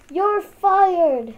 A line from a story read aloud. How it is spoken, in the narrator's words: their boss yelled